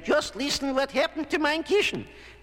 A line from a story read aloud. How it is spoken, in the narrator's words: Mama Bear snapped